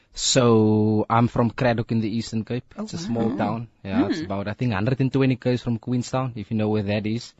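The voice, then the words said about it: South African regional accent. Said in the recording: “I hear your accent”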